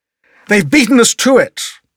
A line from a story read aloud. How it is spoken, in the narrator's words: Sir Keote exclaimed